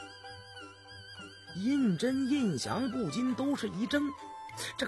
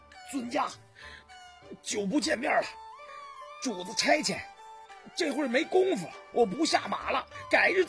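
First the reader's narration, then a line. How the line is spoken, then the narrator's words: Out of breath. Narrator (Chinese): 高福气喘吁吁地说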